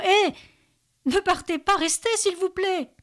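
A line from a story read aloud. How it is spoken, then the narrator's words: Frantic panicked scream. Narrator (French): Benjamin hurle de panique, quasi dément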